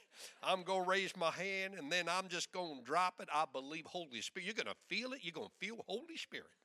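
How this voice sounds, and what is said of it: Put-on American accent. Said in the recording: “Always goes better with an American accent.”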